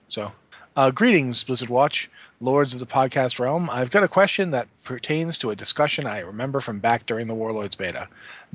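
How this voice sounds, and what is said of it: New England accent. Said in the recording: “I have New England accent, and I would say that Rao”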